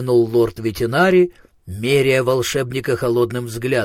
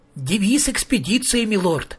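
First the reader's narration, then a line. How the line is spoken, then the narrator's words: Joyful. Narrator (Russian): радостно сообщил Маркоу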